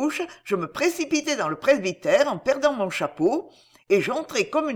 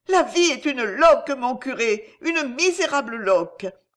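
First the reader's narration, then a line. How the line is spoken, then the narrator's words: Sobbing. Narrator (French): disais-je en sanglotant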